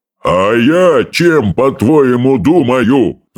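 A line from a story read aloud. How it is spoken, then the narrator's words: Angry roar. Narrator (Russian): взревел Стоик Обширный, в гневе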